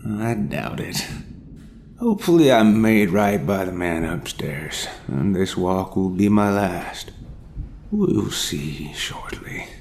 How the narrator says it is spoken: sighed

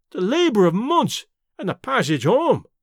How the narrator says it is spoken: Davy wailed

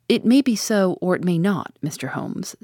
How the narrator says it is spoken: said he

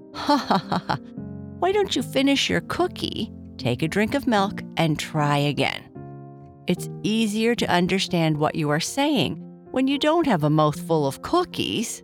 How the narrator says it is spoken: Papa Bear said, laughing

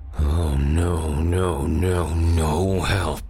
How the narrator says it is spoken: Frost grunted

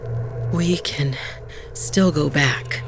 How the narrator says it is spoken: Bala panted

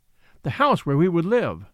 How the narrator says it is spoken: she cried

